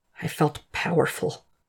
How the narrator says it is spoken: he whispers

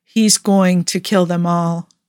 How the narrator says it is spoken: Tony said in a flat voice that was probably acceptance on its best day if you squinted and wore blinders

